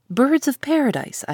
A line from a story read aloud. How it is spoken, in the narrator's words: I exclaimed